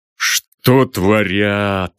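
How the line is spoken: Grim, through clenched teeth. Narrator (Russian): мрачно процедил Аполлон Григорьевич

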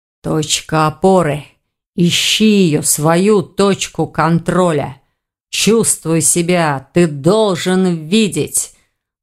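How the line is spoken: Muffled mutter. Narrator (Russian): Глухо пробормотал Эверетт

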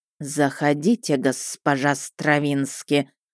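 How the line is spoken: Young snake hissing warmly. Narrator (Russian): радушно прошипел молодой змей

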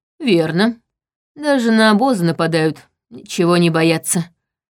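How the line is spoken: Grim. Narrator (Russian): мрачно сказал

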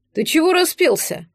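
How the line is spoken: Deep bass voice. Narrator (Russian): пробасил Дарьян

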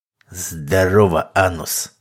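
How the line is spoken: Man's hoarse rasp. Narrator (Russian): прохрипел человек

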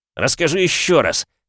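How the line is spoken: Growling. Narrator (Russian): прорычал

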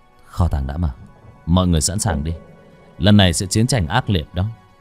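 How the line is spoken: Whispered. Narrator (Vietnamese): Bác Cổ và mọi người thì thầm

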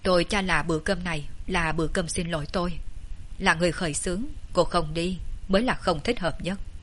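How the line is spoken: Cold voice. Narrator (Vietnamese): Vệ Đình Quân giọng nói lộ ra vẻ lạnh lùng

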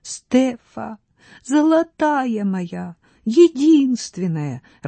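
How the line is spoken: Sobbing. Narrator (Russian): рыдала Люция

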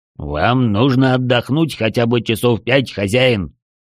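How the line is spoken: Sepulchral voice. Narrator (Russian): загробным голосом вмешался Лян

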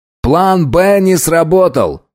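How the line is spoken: Loud announcement. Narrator (Russian): громко сообщил Райли

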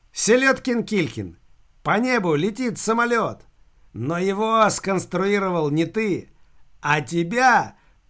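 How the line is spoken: Shouting through laughter. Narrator (Russian): прокричал, перемежая слова хохотом, Машка

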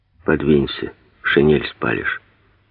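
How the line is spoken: Quiet. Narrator (Russian): тихо сказал Гладких

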